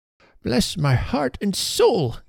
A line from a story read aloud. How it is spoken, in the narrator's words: cried Mr